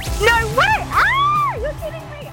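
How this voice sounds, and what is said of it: Excited screaming. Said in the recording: “I'm screaming”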